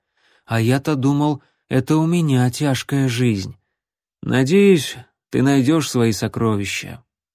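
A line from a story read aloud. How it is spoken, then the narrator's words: Sad. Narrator (Russian): грустно сказал Джон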